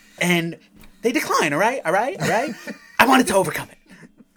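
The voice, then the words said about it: Imitates another person's voice. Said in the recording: “great Tarantino impression”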